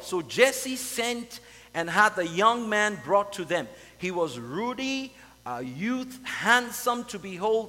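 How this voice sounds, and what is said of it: Non-American accent. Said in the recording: “Americans speak differently from the way that, I'm sure you can tell from my accent”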